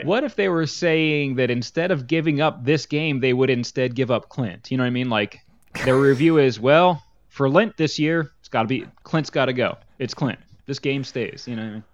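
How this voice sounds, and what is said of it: Regional accent, says lent like lint. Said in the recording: “whatever my accent is ... I say pin. He wrote with a pen, and he wears a pen. ... Lent is lint”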